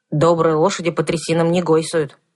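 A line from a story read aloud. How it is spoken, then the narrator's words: Grumbling mutter. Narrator (Russian): пробурчал Кузьмай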